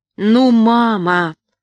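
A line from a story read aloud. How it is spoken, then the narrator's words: Pleading exclamation. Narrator (Russian): умоляюще воскликнул Сэмми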